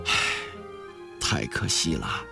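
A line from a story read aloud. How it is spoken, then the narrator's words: Long sigh. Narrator (Chinese): 郑绍文长叹一声说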